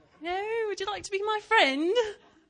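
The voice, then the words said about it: Put-on British accent. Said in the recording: “start talking in my British accent”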